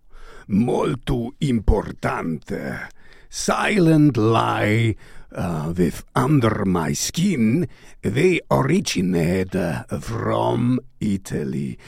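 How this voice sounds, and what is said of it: Strange fake foreign accent. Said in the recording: “I don't know why I do this strange accent, because it's not Italian at all”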